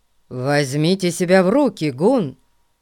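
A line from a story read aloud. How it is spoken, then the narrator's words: Stern. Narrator (Russian): строго сказал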